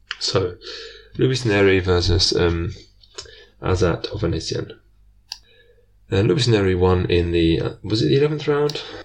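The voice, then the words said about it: Strained, fading voice. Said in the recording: “I'm starting to lose my voice.”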